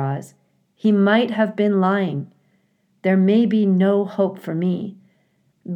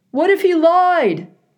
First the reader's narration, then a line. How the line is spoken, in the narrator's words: howled a voice